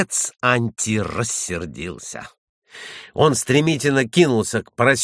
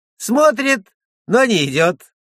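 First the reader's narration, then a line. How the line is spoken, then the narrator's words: Boy speaking through laughter. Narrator (Russian): Мальчишка сквозь смех сказал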